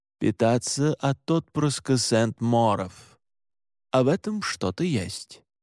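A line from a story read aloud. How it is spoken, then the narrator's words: Slow, thoughtful. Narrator (Russian): медленно произнес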